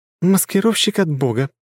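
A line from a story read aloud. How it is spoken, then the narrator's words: Laughing. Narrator (Russian): засмеялась Ангелина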